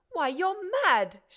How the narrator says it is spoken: shouted Monsieur Filleul, beside himself

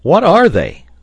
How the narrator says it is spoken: cried Pencroft

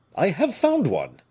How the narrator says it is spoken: said the giant eagerly

